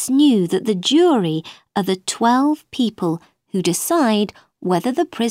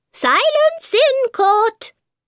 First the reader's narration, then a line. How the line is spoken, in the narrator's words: Suddenly, the White Rabbit cried